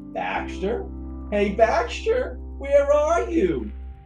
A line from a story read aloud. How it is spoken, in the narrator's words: called out